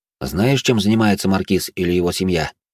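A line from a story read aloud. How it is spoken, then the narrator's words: Plain. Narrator (Russian): спросила Шалена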